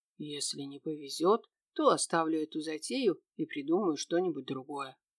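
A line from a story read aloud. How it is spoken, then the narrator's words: Quiet, to himself, young man. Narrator (Russian): молодой человек негромко сказал себе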